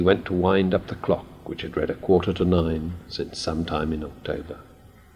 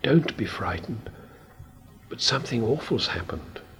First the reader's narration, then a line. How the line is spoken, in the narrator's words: whispered